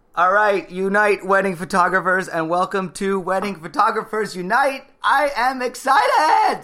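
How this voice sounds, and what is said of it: Loud, yelling excited delivery. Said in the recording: “Stop yelling!”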